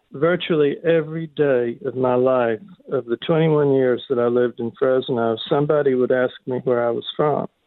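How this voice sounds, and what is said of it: Southern American accent. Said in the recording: “I still have a Southern accent”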